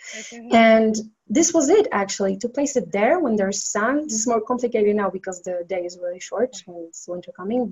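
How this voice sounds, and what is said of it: Hoarse, fading voice. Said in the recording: “I'm starting to lose my voice.”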